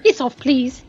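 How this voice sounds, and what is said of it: Bad put-on English accent. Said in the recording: “your English accent again there? ... That's a terrible English accent. ... It was kind of cute.”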